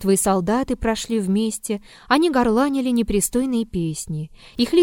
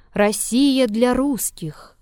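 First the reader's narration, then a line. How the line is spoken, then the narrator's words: Thin man's ringing shout. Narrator (Russian): тощий человек звонким голосом выкрикивал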